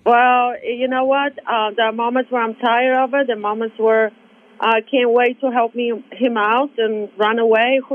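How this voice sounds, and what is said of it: Speaks with a foreign accent. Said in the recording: “your cool accent”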